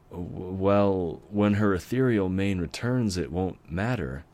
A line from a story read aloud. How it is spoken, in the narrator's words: said with a nervous chuckle